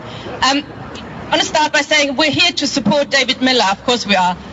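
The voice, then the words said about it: German accent. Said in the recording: “she, by the way, is German ... Yes, the accent is German, if you're wondering.”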